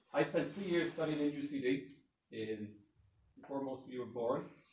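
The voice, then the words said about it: Strong accent. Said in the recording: “my accent is too strong”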